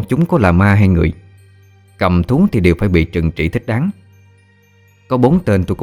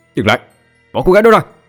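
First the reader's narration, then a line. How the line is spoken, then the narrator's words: Furious shout. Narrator (Vietnamese): Tôi hét vào mặt bốn tên cầm thú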